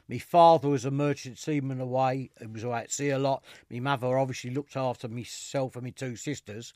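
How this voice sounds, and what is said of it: East End London accent. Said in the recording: “as you can probably tell from the accent, I am a proper East Ender.”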